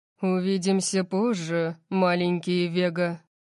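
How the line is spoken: Purring. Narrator (Russian): промурлыкал он

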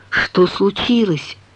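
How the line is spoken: Whispering. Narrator (Russian): Мэдалин перешла на шепот

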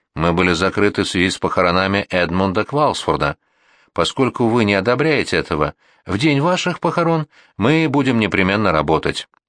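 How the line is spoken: Calm reply. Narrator (Russian): Мистер Вернер спокойно ответил

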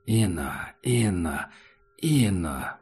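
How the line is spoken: Creature muttering. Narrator (Russian): бормотало существо в коридоре

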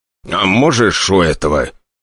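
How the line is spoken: Growl. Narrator (Russian): Николай Григорьевич даже рыкнул

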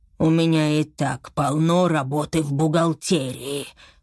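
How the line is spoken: Wolf grumbling. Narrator (Russian): проворчал волк

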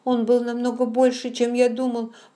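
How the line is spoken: Loud sobbing. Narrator (Russian): продолжал он, громко рыдая

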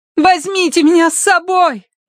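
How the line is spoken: Shouted after them. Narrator (Russian): крикнула Киврин им вслед

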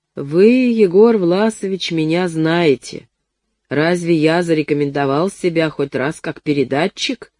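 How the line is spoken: Plain. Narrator (Russian): спросил он

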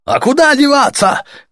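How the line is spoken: Shout. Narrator (Russian): крикнули ему

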